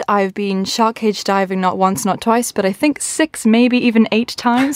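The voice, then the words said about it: English-sounding accent. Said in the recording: “my very English-sounding accent”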